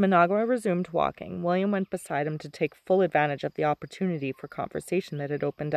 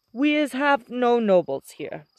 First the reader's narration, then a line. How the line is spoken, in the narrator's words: said Managua in a stately voice